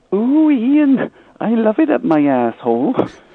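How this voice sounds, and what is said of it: Put-on Welsh or English woman's accent. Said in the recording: “this English dude doing a Welsh accent... sounds like you doing a, an English bird accent”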